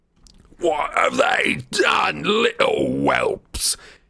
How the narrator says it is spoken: he screamed

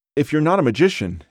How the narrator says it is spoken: blurted

